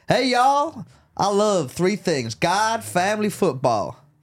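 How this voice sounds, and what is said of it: Put-on Southern American accent. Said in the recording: “And I got a southern one.”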